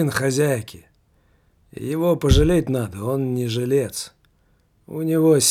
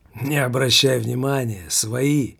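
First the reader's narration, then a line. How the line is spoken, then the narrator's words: Hoarse answer. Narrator (Russian): хрипло ответил тот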